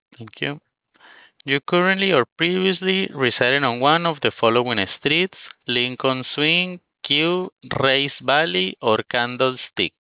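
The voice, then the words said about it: Speaks with an accent. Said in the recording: “my accent maybe interfering with your understanding of the words that I'm saying”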